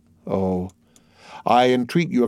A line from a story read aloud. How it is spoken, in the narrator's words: exclaimed Morel in a low voice